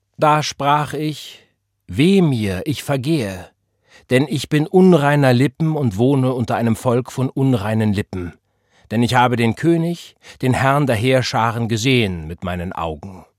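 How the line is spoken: Reading in unusually strong voice. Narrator (German): Sie las mit ungewohnt kräftiger Stimme

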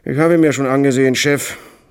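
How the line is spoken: Thin-lipped, slick voice. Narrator (German): sagte der aalglatte, dunkle, schmallippige Bursche mit der schmallippigen Stimme, in der sie sich alle gefallen

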